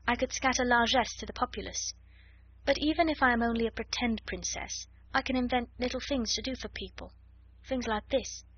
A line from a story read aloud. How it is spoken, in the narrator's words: murmured